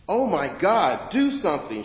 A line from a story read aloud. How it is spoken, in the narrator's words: she shouted